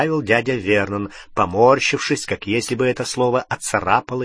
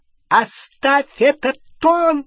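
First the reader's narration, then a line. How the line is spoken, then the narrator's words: Shrill. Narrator (Russian): Визгливо начала тетя Петунья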